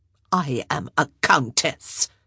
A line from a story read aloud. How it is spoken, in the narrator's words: Araminta hissed